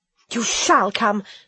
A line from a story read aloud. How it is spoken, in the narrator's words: I panted